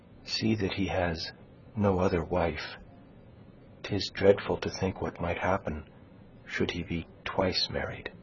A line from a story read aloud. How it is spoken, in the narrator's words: she continued, dropping her voice to a whisper